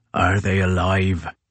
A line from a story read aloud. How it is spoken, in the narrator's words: rasped Crozier